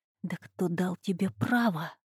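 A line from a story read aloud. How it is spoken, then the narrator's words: Short hiss close to ear. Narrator (Russian): очень близко к уху, праймер прошипел короткое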